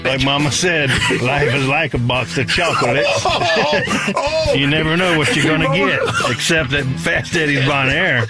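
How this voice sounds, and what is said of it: Imitates a slow Southern movie character. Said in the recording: “my best Forrest Gump impression”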